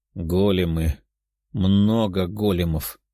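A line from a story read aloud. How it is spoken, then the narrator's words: Grumbling. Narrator (Russian): заворчал он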